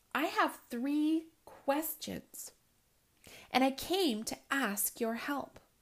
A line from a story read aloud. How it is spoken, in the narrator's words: Nikolai said